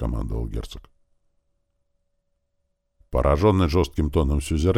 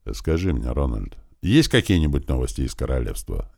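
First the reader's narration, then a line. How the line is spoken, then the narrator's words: Neutral tone, duke. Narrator (Russian): нейтральным тоном поинтересовался герцог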